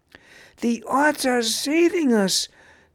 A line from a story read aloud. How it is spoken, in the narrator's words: thankfully cried out Nam